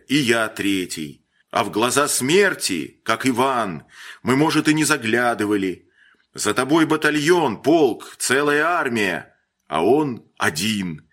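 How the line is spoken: Sudden irritated shout. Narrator (Russian): внезапно раздражаясь, выкрикнул Холин

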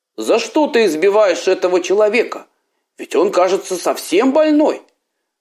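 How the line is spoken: Exclaimed. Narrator (Russian): воскликнул купеческий сын

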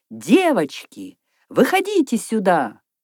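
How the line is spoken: Loud call. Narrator (Russian): Наташа громко крикнула в пространство

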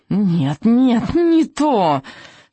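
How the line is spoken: Shrieking. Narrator (Russian): визжал он

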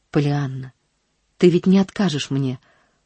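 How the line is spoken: Heartfelt interrupting voice. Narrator (Russian): прервал он ее проникновенным голосом

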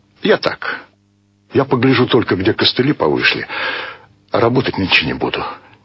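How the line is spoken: Quiet father. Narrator (Russian): тихо сказал отец

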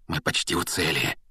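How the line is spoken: Sudden feverish whisper. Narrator (Russian): вдруг лихорадочно зашептал Рон

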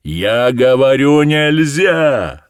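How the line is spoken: Shouting again. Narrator (Russian): закричал опять Назаров

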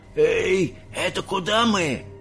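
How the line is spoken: Old man shouting. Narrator (Russian): закричал дедушка Джо

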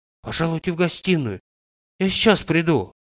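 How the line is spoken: Timid reply. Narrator (Russian): отвечала робко

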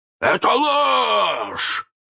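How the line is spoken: Hoarse roar. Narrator (Russian): хрипко взревел Крюк

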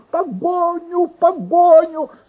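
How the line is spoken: Shouting foolish king. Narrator (Russian): закричал глупый король

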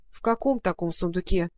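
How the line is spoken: Grumbling. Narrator (Russian): проворчала Маруся

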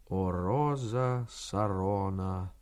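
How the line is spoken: Quiet hoarse drawl. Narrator (Russian): мычит, или тихонько тянет сиповатым голосом

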